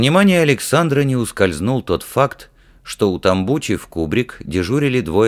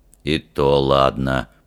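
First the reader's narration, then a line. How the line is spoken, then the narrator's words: Grumbling under breath. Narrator (Russian): пробурчал Фример себе под нос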